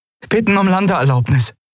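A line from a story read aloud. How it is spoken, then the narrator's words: Calling out. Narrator (German): rief Endriel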